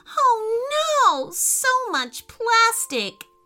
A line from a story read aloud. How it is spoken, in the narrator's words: wailed Ruby